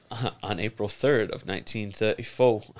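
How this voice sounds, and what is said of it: Put-on accent. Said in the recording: “you are doing accents again ... I'm going accent route”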